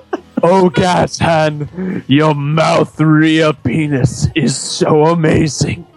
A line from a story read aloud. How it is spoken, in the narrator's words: moaned Rocket in earthly and heavenly delights